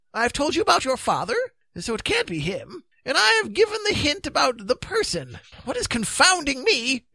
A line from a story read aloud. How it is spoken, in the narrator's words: exclaimed the magician, pulling out his hair in tufts